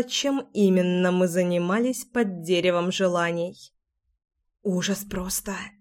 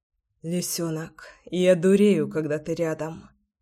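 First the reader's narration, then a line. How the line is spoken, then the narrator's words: Hoarse whisper. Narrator (Russian): хриплый шепот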